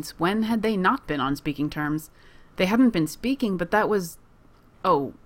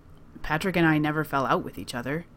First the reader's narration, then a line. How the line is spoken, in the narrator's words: he says